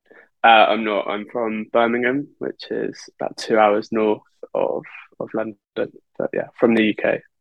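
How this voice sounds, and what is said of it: English accent from the UK. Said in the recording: “you do have an accent”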